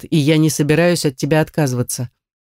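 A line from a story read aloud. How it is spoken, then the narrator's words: Muffled reply. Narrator (Russian): глухо отозвался Ривет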